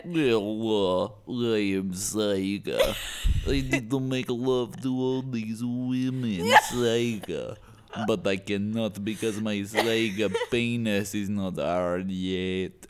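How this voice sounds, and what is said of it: Droopy cartoon voice, mock Russian accent. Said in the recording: “it's got a bit of a Russian accent,... but they got the droopy nose. So I'm going to have a bit of Droopy the Dog in there too... Good. It's perfect.”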